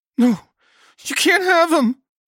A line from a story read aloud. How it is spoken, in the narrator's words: Nancy sobbed